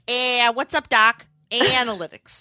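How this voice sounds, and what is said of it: Bugs Bunny impression. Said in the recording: “pretend you're Bugs Bunny”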